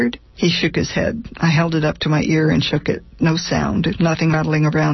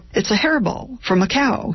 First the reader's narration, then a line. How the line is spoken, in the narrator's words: said happily